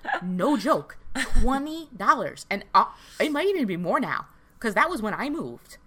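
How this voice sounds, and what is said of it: Speaker's own regional accent. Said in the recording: “I hear my accent coming out now”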